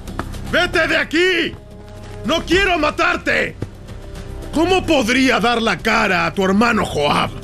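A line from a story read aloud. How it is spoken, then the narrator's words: Shouting again. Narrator (Spanish): Abner le volvió a gritar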